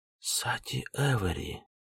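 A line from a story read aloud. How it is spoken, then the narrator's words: Whispered reading. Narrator (Russian): шепотом прочитал Адзеру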